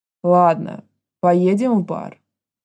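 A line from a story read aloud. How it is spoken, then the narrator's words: Heavy voice. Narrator (Russian): сказал он тяжелым голосом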